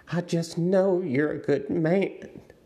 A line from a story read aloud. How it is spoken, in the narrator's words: she said desperately